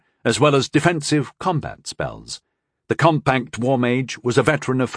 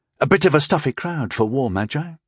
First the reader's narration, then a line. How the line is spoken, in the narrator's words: he murmured to his former squadmate